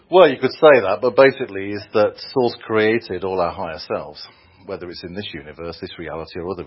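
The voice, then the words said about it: Speaker with a noticeable accent. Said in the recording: “Did you say sauce or source? With that delightful accent, we're never really sure.”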